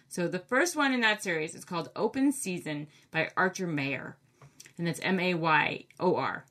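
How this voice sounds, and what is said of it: Maine accent. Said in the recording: “I sound so funny with my Maine accent.”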